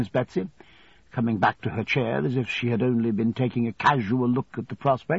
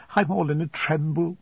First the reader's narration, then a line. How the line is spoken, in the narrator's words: faltered my mother